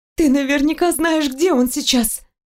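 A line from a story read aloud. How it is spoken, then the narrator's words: Frantic exclamation. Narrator (Russian): воскликнула я, обезумев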